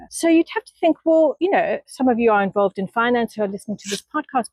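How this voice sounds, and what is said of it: South African accent. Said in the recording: “you can hear from my accent, I grew up in South Africa”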